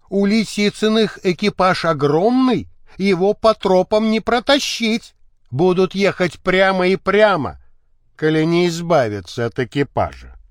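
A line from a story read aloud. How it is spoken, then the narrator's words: Plain, sensible speaker. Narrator (Russian): сказал разумный Пахомыч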